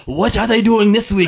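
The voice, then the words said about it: Put-on Japanese accent. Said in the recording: “I only got one Japanese accent”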